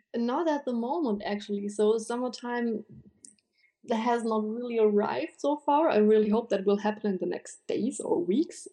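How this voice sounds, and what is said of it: German accent. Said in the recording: “the way you say cheddar is so adorable ... With a German accent”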